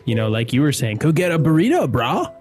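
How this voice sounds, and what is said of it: Californian surfer accent. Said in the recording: “such a good Californian accent, bro.”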